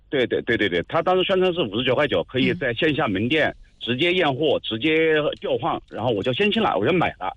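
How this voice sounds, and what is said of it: Regional Jiangsu Nantong accent. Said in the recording (Chinese): “口音是哪里人呢？ ... 我是江苏人，我是江苏南通人。”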